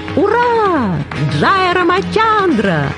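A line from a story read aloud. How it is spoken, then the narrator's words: Joyful shout. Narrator (Russian): радостно закричал Хануман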